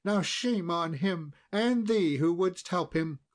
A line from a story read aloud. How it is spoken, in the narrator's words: cried the queen